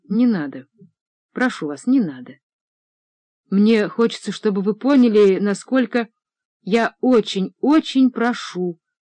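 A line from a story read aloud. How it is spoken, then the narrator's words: Plain. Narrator (Russian): сказала Таня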